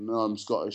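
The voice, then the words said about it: Put-on broad Yorkshire accent. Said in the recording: “in a, in a, broad Yorkshire accent.”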